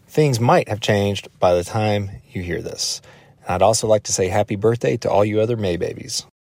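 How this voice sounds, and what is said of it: Smooth Western North Carolina accent. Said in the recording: “I love that Western North Carolina accent. It's so genteel. It's so smooth.”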